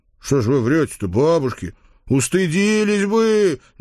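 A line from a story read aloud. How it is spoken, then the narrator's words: Uncontrolled howl. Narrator (Russian): не сдержавшись, взвыл я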